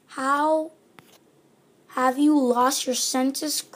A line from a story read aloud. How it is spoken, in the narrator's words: cried his mother